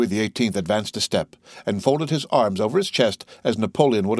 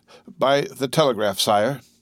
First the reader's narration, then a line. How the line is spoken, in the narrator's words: while a deep color overspread his cheeks, he stammered out